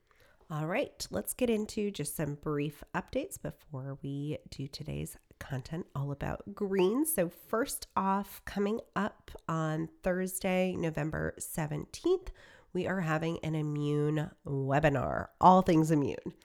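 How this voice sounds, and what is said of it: Congested, sick-sounding voice. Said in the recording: “If you can't hear it in my voice, I'm on the tail end of this pregnancy and got a sinus infection that's kicking my butt”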